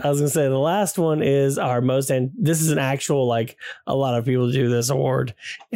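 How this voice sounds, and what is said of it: Strained, fading voice. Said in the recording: “croup is an infection of the larynx, and it did some damage ... as the podcast goes, I'm losing my voice.”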